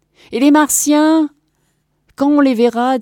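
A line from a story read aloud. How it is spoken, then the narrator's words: Shouting. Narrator (French): cria Michael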